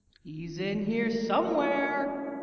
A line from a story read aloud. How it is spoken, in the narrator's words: Her voice echoes around the roof high above